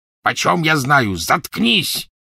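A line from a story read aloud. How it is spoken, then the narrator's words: Rough barking voice. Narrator (Russian): рявкнул грубый голос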